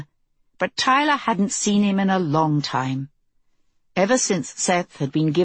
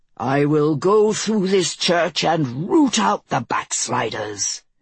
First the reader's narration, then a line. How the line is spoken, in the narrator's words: Anders thundered